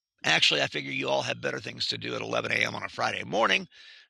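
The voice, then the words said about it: Scratchy, congested voice. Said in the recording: “my voice is very scratchy ... scratchy throat, stuffed up nose”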